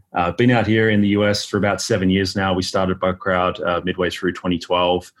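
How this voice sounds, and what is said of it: Australian accent. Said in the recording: “originally from Australia. So that's where the funny accent you're hearing comes from.”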